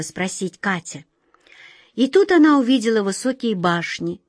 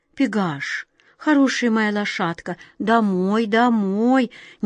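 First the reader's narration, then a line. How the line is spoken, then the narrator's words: Quiet command. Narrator (Russian): негромко приказала Глазастик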